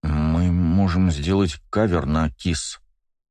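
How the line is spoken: Hesitant suggestion. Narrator (Russian): неуверенно предложил Кирилл

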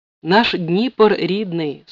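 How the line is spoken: Plain. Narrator (Russian): сказал Грицко

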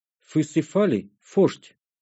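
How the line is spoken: Lisping creature. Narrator (Russian): прошепелявило существо

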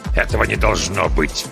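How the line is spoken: Growled. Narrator (Russian): прорычал Гейден

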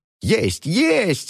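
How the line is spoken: Shouting. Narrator (Russian): закричала

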